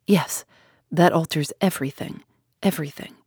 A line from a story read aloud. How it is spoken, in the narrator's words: still murmuring to himself